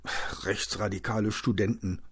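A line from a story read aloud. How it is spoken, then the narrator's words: Mumbling. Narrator (German): nuschelte Hendrik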